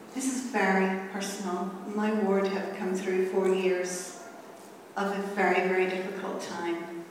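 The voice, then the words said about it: Irish accent, Belfast. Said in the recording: “From Ireland. ... Belfast. ... this beautiful Irish accent”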